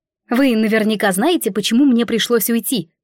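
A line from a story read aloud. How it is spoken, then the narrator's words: Exclaimed. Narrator (Russian): воскликнула я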